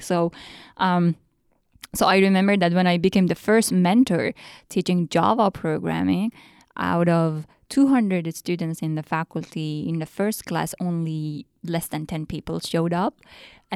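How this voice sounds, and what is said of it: Iranian accent in English. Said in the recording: “my accent was Iranian. They could understand me, but my accent was different ... I speak like an Iranian accent”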